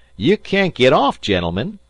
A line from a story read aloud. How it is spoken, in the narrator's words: the conductor shouted